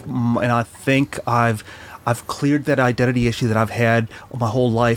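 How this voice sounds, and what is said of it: American-sounding international accent. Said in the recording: “you sound like you're from America ... it's just the international accent”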